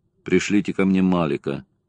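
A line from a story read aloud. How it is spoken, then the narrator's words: Dry, curt. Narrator (Russian): сухо сказал Ковски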